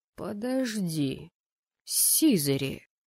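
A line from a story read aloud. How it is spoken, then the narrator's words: Drawling. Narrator (Russian): протянул он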